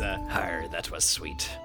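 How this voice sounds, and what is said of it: Character voice for a creature. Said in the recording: “did the Sniv voice”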